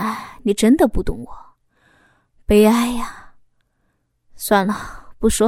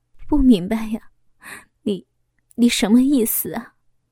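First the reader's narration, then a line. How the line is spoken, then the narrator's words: Sighing. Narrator (Chinese): 老公叹息一声说道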